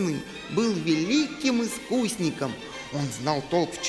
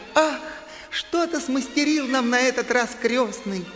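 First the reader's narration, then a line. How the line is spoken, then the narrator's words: Joyful exclamation. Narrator (Russian): Мари от радости воскликнула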